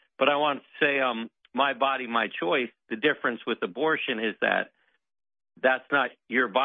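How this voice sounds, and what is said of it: Usual voice. Nothing is said of it.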